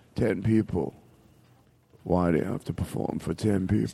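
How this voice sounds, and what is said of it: Imitates another person's voice. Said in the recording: “good impersonation”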